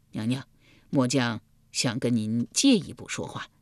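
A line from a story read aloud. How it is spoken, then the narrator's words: Heavy sigh. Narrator (Chinese): 易牙重重地叹了一口气道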